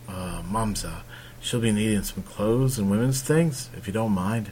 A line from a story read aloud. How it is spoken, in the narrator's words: Arryn quietly murmured to his mother